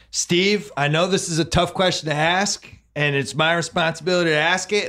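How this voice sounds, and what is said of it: Imitates a sportscaster's voice. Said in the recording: “my Scott Van Pelt impersonation”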